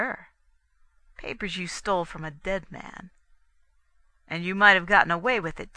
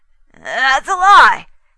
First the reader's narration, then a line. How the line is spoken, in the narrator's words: he said, his voice getting shrill